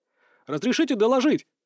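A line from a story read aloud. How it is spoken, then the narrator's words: Sudden bark. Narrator (Russian): рявкнул неожиданно для всех я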